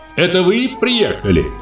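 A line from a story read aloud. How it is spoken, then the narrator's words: Shout. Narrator (Russian): крикнула она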